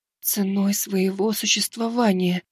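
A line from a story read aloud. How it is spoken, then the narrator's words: Dejected whisper. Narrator (Russian): упавшим голосом прошептала Айна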